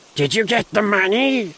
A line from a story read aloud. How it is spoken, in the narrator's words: rasped, her voice a chilling whisper